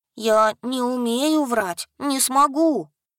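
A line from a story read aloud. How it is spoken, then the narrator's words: Glum drawl. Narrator (Russian): уныло протянул Ясик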